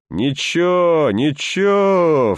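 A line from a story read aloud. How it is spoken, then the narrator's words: Sobbing from cold. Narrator (Russian): всхлипывая от холода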